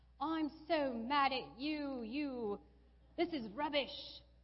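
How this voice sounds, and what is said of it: Put-on British accent. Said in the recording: “you have to do it in a British accent”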